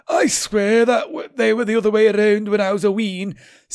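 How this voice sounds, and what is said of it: Put-on Scottish accent. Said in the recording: “I'll do a Scottish accent.”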